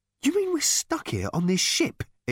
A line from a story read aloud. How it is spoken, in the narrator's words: exclaimed Ford, suddenly losing patience with the whole charade